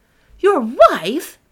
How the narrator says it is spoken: cried Kate

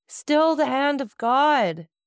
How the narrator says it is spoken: Then a piercing cry escaped from his breast, and he cried

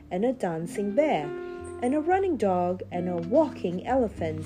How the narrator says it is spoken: cried Chinky in glee

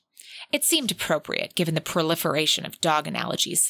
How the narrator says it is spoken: Sebastian snapped

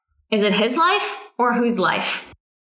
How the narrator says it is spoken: Gu Tingye chuckles

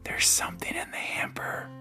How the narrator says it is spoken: she whispered

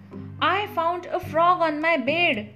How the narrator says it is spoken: when I yelled out

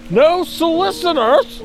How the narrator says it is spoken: he yells over his shoulder

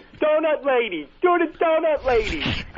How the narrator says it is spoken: people were yelling

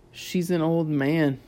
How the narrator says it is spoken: he muttered

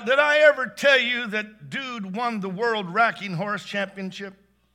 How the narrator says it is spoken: Bart blurted out

